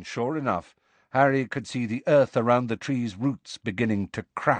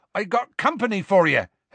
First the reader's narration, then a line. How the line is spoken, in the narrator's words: Hagrid shouted